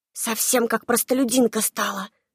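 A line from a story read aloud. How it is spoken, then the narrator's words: Distant whisper. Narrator (Russian): донесся до меня шепоток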